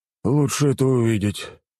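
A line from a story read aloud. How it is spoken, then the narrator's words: Sadder sigh. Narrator (Russian): еще более грустно вздохнул командир гвардии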